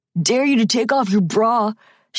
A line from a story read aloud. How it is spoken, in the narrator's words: shouted Jimmy Parsons, one of the rough boys who was a year ahead of Marissa